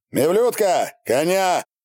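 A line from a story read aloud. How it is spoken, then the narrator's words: Shout. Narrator (Russian): крикнул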